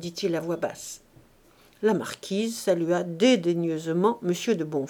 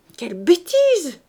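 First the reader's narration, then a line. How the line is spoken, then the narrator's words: Stepmother's cry. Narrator (French): s'écria la belle-mère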